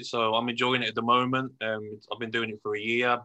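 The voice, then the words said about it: Brummie (Birmingham) accent. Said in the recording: “I love the Brummy accent”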